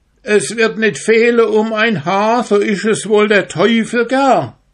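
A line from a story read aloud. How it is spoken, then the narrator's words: Calling out. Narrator (German): Der Michael rief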